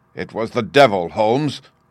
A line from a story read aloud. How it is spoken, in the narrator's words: cried